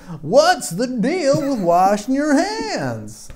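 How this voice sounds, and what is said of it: Imitates another person's voice. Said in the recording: “That was my Andrew Hales impression right there. How did I do? Was that pretty good?”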